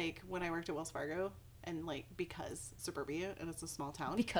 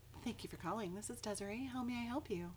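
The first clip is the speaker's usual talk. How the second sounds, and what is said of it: Polished customer service phone voice. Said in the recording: “my customer service voice is on point ... Can we hear the customer service voice? ... See, that's on point.”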